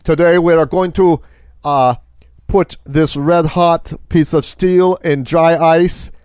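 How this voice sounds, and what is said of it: Put-on German accent. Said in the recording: “I believe they're German. They might not be. I may be so off on my accent”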